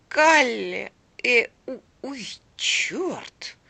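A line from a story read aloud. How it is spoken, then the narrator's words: Sudden stammering. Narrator (Russian): Вдруг, спохватившись, проговорила, запинаясь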